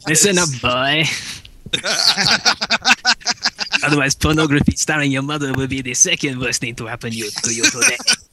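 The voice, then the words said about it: Scottish speaker's French-accented Spy impression. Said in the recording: “Nothing funnier than a Scottish person pulling off a French accent. ... Scottish accent, he's still there. ... I sound like some stoned Spanish person.”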